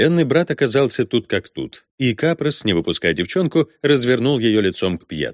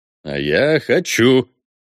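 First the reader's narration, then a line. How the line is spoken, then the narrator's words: Growled. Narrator (Russian): рыкнул маршал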